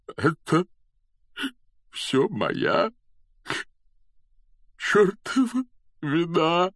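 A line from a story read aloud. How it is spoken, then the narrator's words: Choked, tearful. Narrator (Russian): выдавил он сквозь слезы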